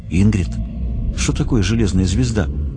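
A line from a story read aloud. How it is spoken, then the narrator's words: Quiet question. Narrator (Russian): тихо спросил Кайбер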